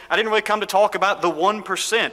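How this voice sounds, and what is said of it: Bernie Sanders impression. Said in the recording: “even with a good Bernie Sanders accent”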